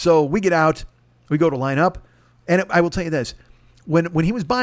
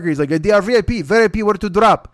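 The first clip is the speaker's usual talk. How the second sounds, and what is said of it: Clumsy put-on Russian accent. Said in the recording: “I don't know why he's in the Russian mob, by the way. I don't do accents.”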